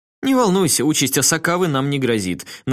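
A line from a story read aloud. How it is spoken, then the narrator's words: Forced cheerfulness. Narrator (Russian): нарочито весело сказал Мияшта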